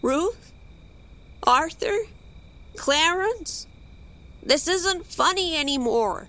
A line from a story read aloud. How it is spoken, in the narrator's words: Shakily, called